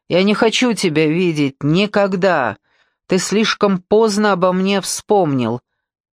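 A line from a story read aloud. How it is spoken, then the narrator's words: Ringing, angry, haughty. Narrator (Russian): сказала звенящим голосом зло и надменно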